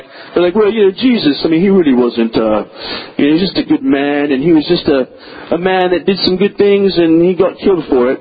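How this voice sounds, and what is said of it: Posh British academic accent. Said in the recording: “there's always the guy who's from Oxford or Cambridge, right? And there's that this accent there ... very intellectual sounding”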